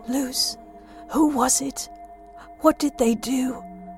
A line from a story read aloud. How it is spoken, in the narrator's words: His voice wavered with emotion